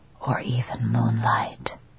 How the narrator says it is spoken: he whispers

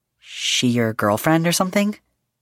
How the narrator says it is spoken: he asked in his best, casual tone

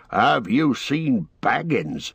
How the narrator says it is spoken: he asked in a queer voice

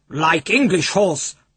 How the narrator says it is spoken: grunted Little Bull

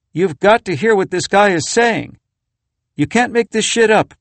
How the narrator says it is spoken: called out to her husband in a nearby room

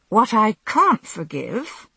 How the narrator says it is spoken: I said, my voice rising slightly in spite of myself

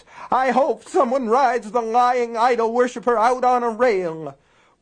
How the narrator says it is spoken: William Rose cried

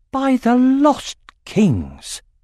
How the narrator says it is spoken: exclaimed Jode

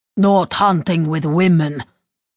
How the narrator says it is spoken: Volgin grumble loudly

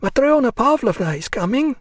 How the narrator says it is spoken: she cried

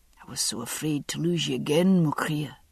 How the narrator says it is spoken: he murmured

